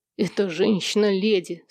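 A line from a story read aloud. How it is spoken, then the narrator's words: Plain. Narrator (Russian): сказал я ей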